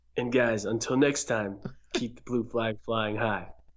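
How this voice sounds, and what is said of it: Imitates another person's voice. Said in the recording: “Was that a good Zach impression? ... No, but it was pretty good.”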